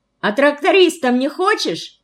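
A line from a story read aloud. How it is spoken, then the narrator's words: Girl's ringing shout. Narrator (Russian): Звонко выкрикнула одна из девчонок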